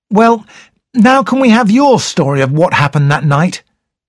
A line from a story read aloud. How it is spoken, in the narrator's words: said Raymond impatiently